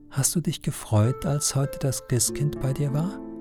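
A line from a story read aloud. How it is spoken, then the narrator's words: Very quiet question. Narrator (German): Ganz leise fragt er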